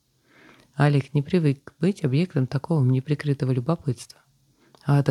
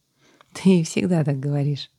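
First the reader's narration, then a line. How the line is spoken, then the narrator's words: Laughing. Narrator (Russian): засмеялась сестра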